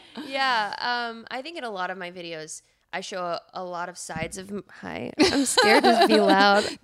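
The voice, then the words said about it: Low sultry podcast voice. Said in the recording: “I'm just hearing my sexy podcast voice.”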